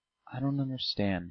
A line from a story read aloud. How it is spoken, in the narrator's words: he said softly